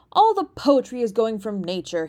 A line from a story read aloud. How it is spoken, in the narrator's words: he cried